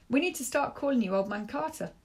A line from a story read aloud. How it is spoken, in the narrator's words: Rico says